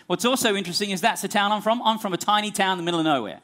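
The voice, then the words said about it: Australian accent. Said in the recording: “if you're wondering about my accent, that's the country I'm from. We probably don't have an ambassador from Australia here today”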